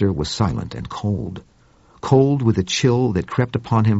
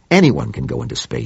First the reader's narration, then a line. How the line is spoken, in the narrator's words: snapped Claiborne